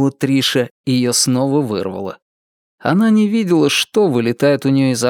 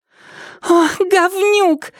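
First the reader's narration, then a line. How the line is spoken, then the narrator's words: Squeal. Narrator (Russian): взвизгнула Триша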